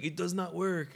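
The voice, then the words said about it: Bad accented imitation of another person. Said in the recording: “imagine Arnold Schwarzenegger calling in ... that's a bad accent impression.”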